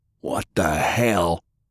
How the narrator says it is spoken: Lance bellowed

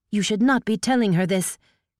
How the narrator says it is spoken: Chiyo snapped

